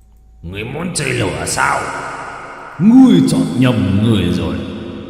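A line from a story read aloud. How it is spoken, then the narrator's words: Roaring dragon. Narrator (Vietnamese): Dao long gầm lên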